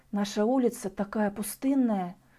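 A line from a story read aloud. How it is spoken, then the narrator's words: Whisper. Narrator (Russian): прошептала Мария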